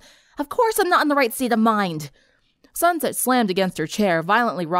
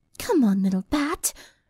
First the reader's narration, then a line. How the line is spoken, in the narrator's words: she murmured to herself